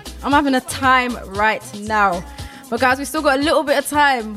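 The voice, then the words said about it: Out of breath, panting. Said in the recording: “Can you guys hear I'm even out of breath? Because I've been dancing.”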